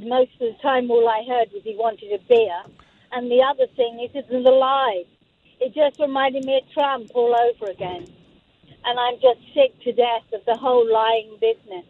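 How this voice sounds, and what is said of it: British accent. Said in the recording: “lovely British accent”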